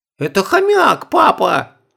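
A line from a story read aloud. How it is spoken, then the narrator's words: Shrill squeal. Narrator (Russian): взвизгнула Оля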